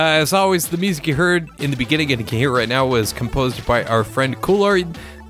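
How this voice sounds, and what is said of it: Usual voice. Nothing is said of it.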